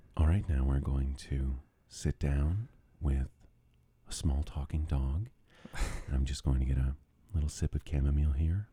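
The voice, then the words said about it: Soothing, buttery public-radio host voice. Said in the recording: “The NPR voice ... it's soothing. It's so buttery.”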